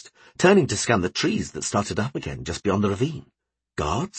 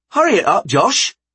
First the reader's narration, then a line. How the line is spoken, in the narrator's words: he called out